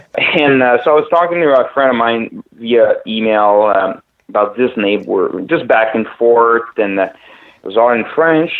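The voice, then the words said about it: Quebecois French accent. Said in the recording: “I'm French by background, Quebecois. So that's the accent”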